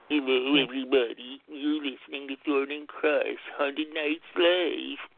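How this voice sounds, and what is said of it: Droopy character voice. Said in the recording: “tell everybody in your droopy voice”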